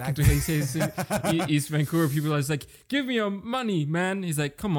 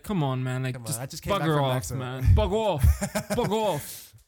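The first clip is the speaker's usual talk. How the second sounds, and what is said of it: Put-on British accent. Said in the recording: “That was British. ... the way I said it was pretty good British accent”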